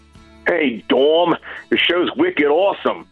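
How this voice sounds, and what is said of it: Put-on Boston accent. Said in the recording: “I don't know why I'm talking in a Boston accent today”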